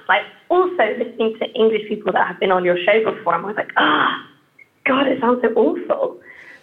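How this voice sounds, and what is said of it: British English accent. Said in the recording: “I'm just so aware of how British my accent sounds”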